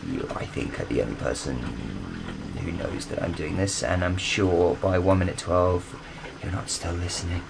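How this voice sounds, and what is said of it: Whispering. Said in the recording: “you probably can't hear me because I'm whispering.”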